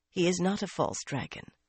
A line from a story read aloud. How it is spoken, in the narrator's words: Varin said quietly